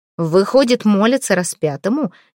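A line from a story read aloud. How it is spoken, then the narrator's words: Angry question. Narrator (Russian): гневно спросила Малфреда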